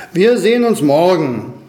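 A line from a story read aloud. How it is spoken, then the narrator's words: Eagle calling out. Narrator (German): rief der Adler ihnen zu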